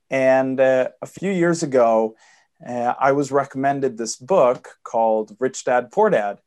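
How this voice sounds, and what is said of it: Swedish accent. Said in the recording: “I apologize for the accent. My dad's American, but I'm born and raised in Sweden.”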